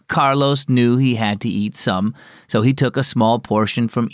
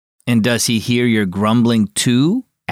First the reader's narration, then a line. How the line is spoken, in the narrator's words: asked Dad